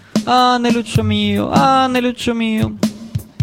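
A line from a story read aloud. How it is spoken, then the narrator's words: Moaning. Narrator (Italian): Saro gemendo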